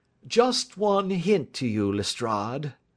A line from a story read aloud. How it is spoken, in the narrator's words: drawled Holmes